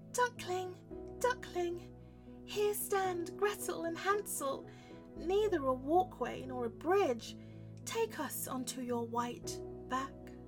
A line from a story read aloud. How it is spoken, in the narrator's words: Then Gretel called out